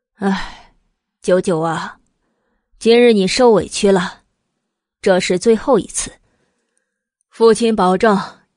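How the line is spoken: Soothing sigh. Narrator (Chinese): 慕容正先是安慰似的叹了口气，道

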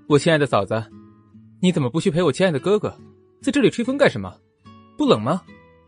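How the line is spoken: Coy, slightly sweet. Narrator (Chinese): 思慕说话也变得如此拐弯抹角了，还带着些许甜味儿

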